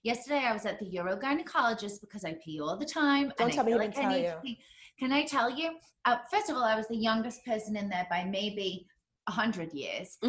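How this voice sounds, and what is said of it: British accent with American influence. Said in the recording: “I love your accent ... British ... Britain by way of Jersey”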